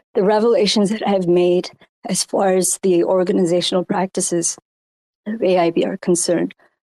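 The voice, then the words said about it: Hoarse voice. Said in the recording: “I'm still getting over my COVID. So my voice is getting hoarse.”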